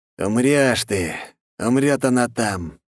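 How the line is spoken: Hissing. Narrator (Russian): прошипел он

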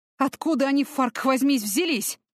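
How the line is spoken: Exclamation. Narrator (Russian): воскликнул Люк

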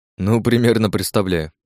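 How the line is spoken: Calm reply. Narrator (Russian): спокойно ответил я ему

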